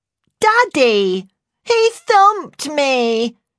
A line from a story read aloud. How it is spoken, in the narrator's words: she wailed, sounding like she was about to cry